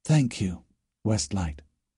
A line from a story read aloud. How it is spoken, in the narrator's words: Great Crack whispered